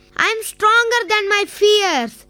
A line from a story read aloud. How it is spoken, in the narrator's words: He shouted